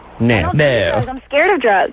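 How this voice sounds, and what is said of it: Weird put-on accent. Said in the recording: “That's a weird accent.”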